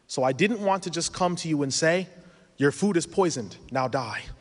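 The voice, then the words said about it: Speaks with a noticeable accent. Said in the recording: “I have tried to lighten my accent. It's gotten worse in the past few years.”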